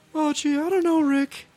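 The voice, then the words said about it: Morty impression. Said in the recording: “terrible Rick and Morty impersonation ... I thought mine was pretty good ... Yeah, it was pretty good”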